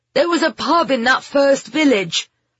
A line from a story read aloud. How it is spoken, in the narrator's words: Ben shouted back